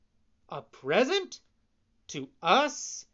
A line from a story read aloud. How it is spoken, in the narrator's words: exclaimed the Fox, as if offended